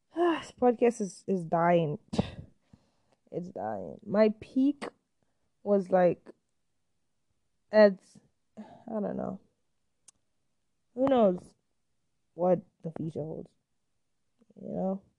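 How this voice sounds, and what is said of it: Scratchy, tired voice. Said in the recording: “My voice is getting scratchy.”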